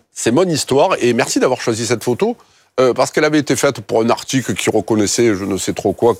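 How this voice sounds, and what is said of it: Marseille southern French accent. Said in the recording (French): “mon authenticité s'entend toujours, pique un peu les yeux, mon accent, c'est un peu l'ail... Les Marseille, quartiers nord”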